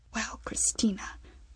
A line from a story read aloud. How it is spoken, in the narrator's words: Vera lowered her voice